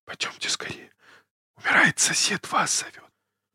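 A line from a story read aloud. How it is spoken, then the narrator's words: Agitated man whispering. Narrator (Russian): незнакомого, взволнованного человека, говорящего шепотом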